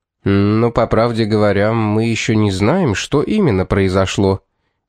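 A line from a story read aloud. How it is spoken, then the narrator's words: Hesitant tone. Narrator (Russian): неуверенным тоном начал Мэлори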